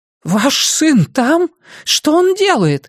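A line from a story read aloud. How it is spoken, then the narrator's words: Horrified old woman exclaiming. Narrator (Russian): в ужасе воскликнула мадам-бабушка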